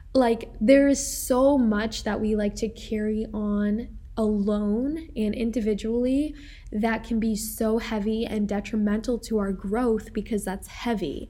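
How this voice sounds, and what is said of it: Rough, slightly congested voice. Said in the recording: “excuse my voice, by the way, guys. I have some allergies going on here.”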